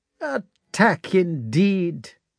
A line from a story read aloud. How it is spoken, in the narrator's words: said the colonel in a bored voice